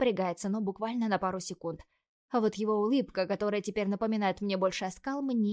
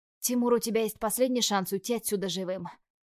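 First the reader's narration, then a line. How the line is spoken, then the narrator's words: Hoarse rasp. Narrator (Russian): прохрипела я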